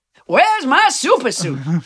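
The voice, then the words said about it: Bad Samuel L. Jackson impression. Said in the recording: “my very bad Samuel Jackson impression”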